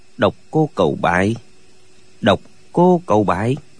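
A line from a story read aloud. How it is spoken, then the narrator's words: Muttering. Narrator (Vietnamese): Lệnh Hồ Xung lẩm bẩm nói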